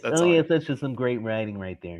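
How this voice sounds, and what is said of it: Imitates another person's voice. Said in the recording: “his Alan Alda impression”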